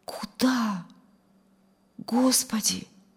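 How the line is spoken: Reverent humble whisper. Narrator (Russian): прошептал в благоговейном смирении

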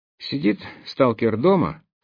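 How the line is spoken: Strained, effortful voice. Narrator (Russian): поведал он таким натруженным голосом, как будто сидел на горшке

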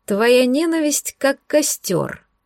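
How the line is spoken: Silky, ingratiating voice. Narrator (Russian): вкрадчиво проговорила Тамуа

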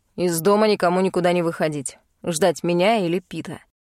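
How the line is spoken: Curt remark. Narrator (Russian): бросив

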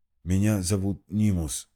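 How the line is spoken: Hoarse rasp, injured throat. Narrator (Russian): прохрипел мужчина, ощупывая травмированное горло

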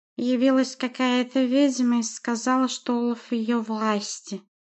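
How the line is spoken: Lisping. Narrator (Russian): прошепелявил он

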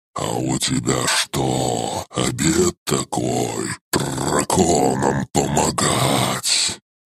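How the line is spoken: Distrustful hiss. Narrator (Russian): недоверчиво прошипела серая

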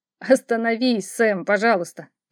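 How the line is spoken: Laughing, struggling to speak. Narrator (Russian): продолжая смеяться, с трудом выговорил Алекс

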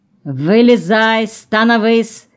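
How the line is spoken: Shouting. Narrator (Russian): кричал Тагиров

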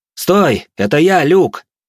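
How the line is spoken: Loud, alarmed. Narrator (Russian): Поняв, что я могу так нелепо умереть, громко произнес

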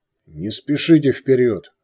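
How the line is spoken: Barking. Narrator (Russian): рявкнул Балдар

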